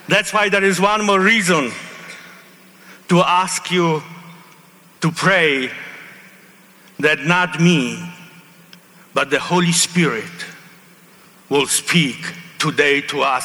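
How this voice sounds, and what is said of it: Heavy accent. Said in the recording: “I speak with an accent ... I speak with a heavy accent.”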